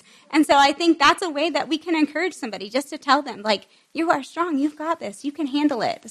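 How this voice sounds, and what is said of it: Talking very fast. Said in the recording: “I'm talking so fast and going through this so fast”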